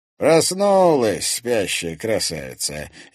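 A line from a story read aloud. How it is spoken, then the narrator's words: Sarcastic. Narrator (Russian): язвительно отметил Борис Макарский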